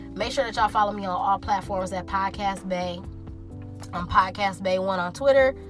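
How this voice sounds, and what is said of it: Sick, congested voice from a cold. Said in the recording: “I am like sick right now. I have a cold. ... So I probably sound very terrible”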